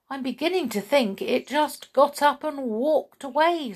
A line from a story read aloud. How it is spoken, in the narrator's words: Cinderella said, sadly